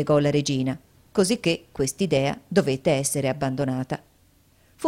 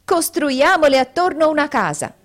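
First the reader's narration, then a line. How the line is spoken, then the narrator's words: Group shouting. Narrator (Italian): essi gridarono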